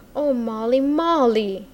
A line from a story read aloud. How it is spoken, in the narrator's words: he cried out beseechingly